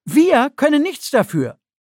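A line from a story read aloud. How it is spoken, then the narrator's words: Calling out. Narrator (German): rief Knoche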